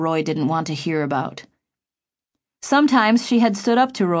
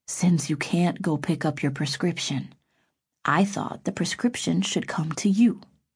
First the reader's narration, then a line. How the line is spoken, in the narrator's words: said in a half whisper